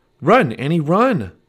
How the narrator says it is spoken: cried Jack

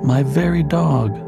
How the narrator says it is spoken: sighed poor Rip

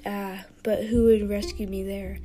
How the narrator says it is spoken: he rasped

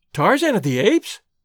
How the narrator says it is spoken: she cried

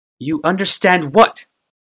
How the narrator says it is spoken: snapped the Primata

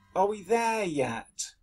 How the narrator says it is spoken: Sheila whined

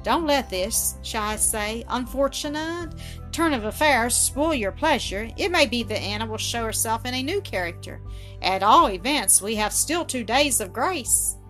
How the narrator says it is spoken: Dinsmore said cheerily

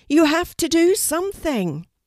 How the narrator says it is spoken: the ravens shouted at Kelty together

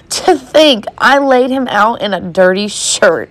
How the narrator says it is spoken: Eva cackled uproariously

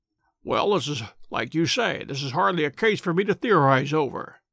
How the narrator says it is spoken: said Holmes, dryly

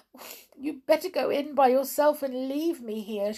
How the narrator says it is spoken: she sobbed

